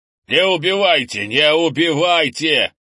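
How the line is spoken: Man yelling. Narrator (Russian): орал мужик

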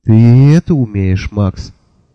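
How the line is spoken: Sad. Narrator (Russian): печально сказала она

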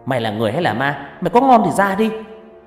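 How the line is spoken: Frightened shout. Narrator (Vietnamese): hét lên

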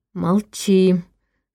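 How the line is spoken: Through clenched teeth. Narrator (Russian): сквозь стиснутые зубы выдохнул Войтах

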